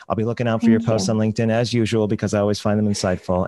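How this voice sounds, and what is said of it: Deep, soothing radio voice. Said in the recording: “you have a great radio voice. ... You have this like deep, you know, kind of like, it's very soothing.”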